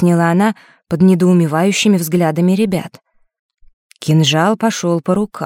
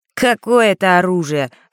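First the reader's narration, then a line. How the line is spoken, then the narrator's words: Snort. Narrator (Russian): Фэш хмыкнул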